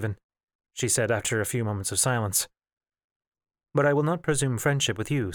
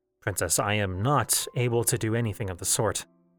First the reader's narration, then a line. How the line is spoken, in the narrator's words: he said